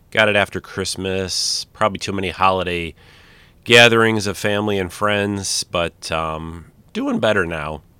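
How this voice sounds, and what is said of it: Slightly nasal, congested voice. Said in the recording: “If I sound a little nasally, I've had a little bit of a cold”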